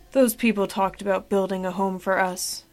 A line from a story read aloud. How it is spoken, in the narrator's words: muttered Frankston